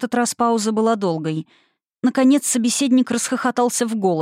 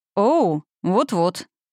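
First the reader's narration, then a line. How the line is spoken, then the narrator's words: Gloomy summary. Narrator (Russian): мрачно подытожил Николас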